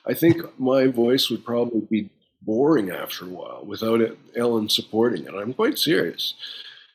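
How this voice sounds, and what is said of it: Deep low-pitched male voice. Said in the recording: “my deep voice”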